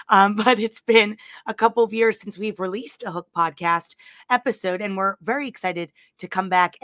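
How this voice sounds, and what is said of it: Hoarse voice. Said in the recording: “I apologize for the hoarse voice. The holidays are finally catching up to me.”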